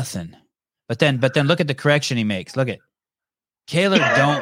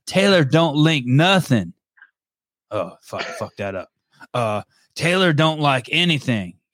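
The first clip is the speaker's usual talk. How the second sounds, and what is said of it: Put-on redneck accent. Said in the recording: “Let me read them to you in the accent I think Mr. Tyler Shengaris has ... Is that your sad redneck accent?”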